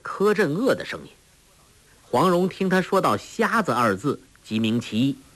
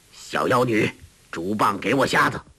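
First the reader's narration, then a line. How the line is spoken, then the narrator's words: Cold. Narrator (Chinese): 一个人冷冷的道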